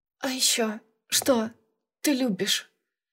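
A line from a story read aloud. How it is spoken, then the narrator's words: Strained, barely forced out. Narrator (Russian): Я едва выдавила из себя этот вопрос, потому что он начал двигаться, и, как всегда, сразу на полной скорости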